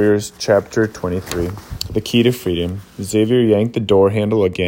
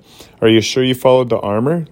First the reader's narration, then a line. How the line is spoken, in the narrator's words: Levi asked, panting